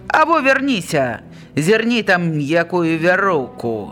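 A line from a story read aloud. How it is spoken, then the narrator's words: Shouting. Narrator (Belarusian): Гуш крыкнуў Каландзёнку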